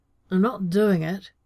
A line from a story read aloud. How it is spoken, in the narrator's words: John protested, only slurring his words a little